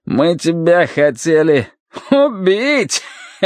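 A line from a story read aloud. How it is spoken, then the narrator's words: Finishing with greasy chuckle. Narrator (Russian): договорил Джек и жирно хохотнул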